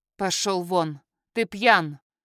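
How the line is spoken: Harsh, haughty, through teeth. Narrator (Russian): Процедила я как можно жестче и высокомернее

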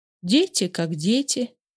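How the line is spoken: Sad smiling. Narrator (Russian): грустно улыбнулась Марья Ивановна

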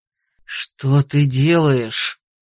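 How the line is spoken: Hiss. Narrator (Russian): прошипел Алластер

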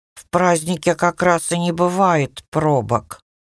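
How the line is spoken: Grumbling. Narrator (Russian): пробурчал он

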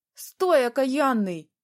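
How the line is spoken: Old woman's shriek. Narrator (Russian): взвизгнула бабка

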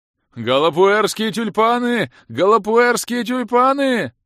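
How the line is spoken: Yelling at full voice. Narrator (Russian): Орал во всю глотку незнакомый мне игрок из клана Неспящих

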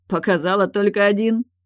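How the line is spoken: Laughing. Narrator (Russian): засмеялся Райлих

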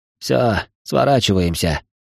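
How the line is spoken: Through gritted teeth. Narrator (Russian): процедил азиат

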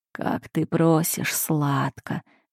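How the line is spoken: Mutter. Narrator (Russian): бормочет он

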